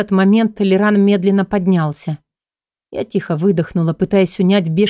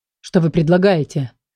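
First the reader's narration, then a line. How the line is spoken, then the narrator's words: Snorted, interrupting. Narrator (Russian): фыркнул Седобородый, обрывая тираду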